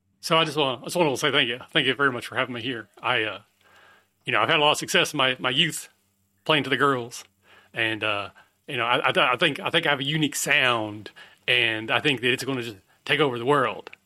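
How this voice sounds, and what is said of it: Elvis impersonator voice. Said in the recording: “this Elvis impersonator ... two competing Elvis impersonators”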